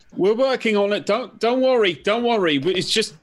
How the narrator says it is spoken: Paul shouts back

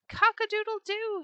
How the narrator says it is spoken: he cried

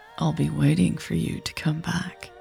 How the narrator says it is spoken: Raven said softly

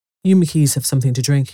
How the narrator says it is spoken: he said

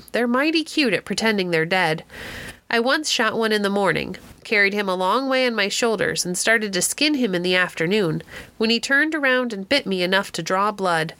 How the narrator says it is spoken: Wood, chuckling

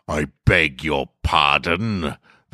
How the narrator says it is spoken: the grand wizard boomed

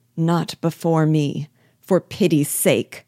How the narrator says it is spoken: cried a voice, in accents of agony

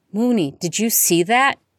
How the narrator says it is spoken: He cried

